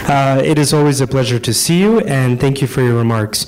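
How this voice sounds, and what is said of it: Voice sounds sick, under the weather. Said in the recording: “pardon my voice. I'm under the weather a little bit”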